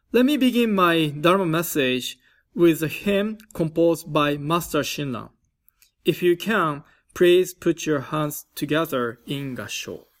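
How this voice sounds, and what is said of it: Japanese-accented English, slight California tinge. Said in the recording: “I am originally from Hiroshima, Japan ... your English is not so bad, but you still have an accent ... Hiroshima or California accent in my pronunciation”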